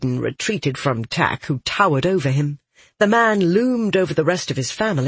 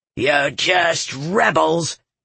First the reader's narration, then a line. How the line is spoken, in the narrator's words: Tack snarled